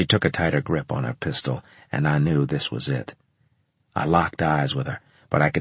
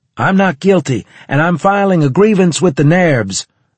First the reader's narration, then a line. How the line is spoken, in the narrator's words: I shouted